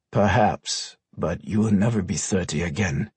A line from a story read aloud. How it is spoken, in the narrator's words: the man finally remarked in a quiet tone